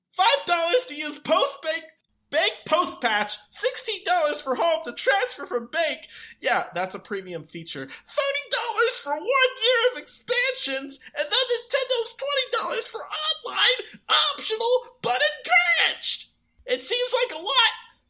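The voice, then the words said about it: Strained, impassioned put-on reading voice. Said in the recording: “my voice is dying. I'm gonna go back to my normal voice. ... he got so impassioned”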